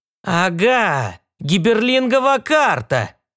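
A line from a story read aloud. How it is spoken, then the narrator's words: Exclaiming. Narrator (Russian): воскликнул Белл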